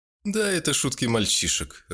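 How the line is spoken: Laughing. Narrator (Russian): рассмеялся

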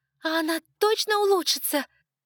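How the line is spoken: Shouted over wind. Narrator (Russian): крикнула я, ветер

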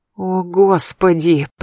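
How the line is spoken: Anguished groan. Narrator (Russian): простонал Одинцов с болью душевной

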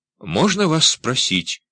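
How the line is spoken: Timid. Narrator (Russian): робко проговорила она

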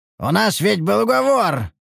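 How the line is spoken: Shouting after someone. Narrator (Russian): прокричал он ей вслед

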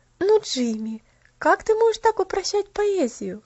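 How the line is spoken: Affectionate laughing reproach. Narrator (Russian): ласково со смехом пожурила его Поллианна

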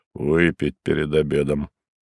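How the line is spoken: Good-natured mutter, big man. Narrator (Russian): Огромный ... добродушно улыбнулся, буркнув

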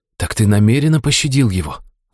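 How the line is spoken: Breathed out. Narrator (Russian): выдохнул

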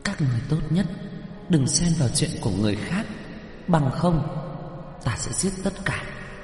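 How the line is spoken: Barely moving lips. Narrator (Vietnamese): Tiểu quỷ đôi môi khẽ nhúc nhích

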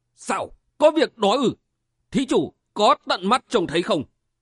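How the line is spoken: Shout. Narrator (Vietnamese): Nhất Tâm đại sư la lên

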